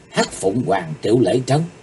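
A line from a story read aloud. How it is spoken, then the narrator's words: Soft startled exclamation. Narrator (Vietnamese): Chí Tồn kêu khẽ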